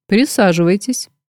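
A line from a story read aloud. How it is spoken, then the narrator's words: Level, even tone. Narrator (Russian): ровным тоном произнес он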